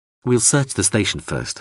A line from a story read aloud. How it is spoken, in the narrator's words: Hawser said